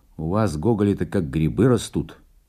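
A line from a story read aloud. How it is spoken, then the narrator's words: Stern remark. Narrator (Russian): строго заметил ему Белинский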